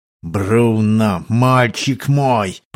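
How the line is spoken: Hissed. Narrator (Russian): прошипел капитан

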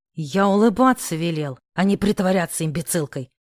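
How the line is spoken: Hissed. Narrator (Russian): прошипел Корф

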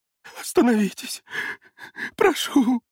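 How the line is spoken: Sobbing, trembling. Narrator (Russian): Всхлипы и дрожь усилились

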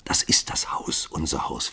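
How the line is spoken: Whispered. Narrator (German): flüsterte sie

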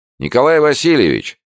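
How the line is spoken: Loud speech. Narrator (Russian): громко сказал Плигин, опасаясь, что хозяин глуховат

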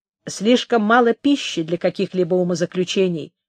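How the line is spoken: Plain. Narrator (Russian): сказал Джейкоб

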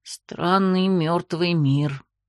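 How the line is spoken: Soft. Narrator (Russian): тихонько произнес Ариэль

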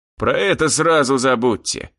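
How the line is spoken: Growled. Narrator (Russian): рыкнул

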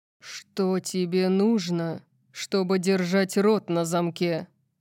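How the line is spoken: Growled. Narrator (Russian): прорычал он

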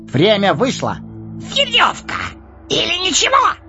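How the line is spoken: Shrill squeal. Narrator (Russian): Взвизгнул Горлум

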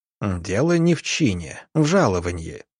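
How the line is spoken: Pedantic snort. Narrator (Russian): педантично хмыкнул

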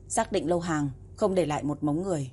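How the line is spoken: Cold. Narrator (Vietnamese): Tề Mặc nói lạnh lùng

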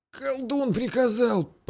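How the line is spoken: Wheezing rasp, peasant man. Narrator (Russian): просипел мужик

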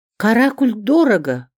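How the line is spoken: Snapping back. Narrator (Russian): огрызнулась Рима Марковна

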